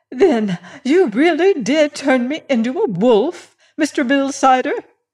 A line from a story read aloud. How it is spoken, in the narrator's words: exclaimed excitedly